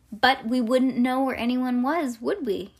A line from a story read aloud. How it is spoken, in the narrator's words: he said